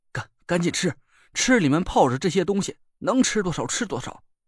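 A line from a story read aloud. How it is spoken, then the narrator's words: Trembling voice. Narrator (Chinese): 声音都抖了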